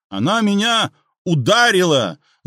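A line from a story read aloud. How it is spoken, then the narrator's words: Yelled. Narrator (Russian): завопил он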